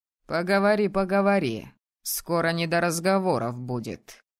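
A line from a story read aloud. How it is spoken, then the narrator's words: Mocking snort. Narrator (Russian): хмыкнул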